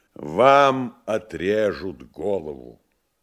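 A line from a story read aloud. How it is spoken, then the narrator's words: Loud joyful announcement. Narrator (Russian): И громко и радостно объявил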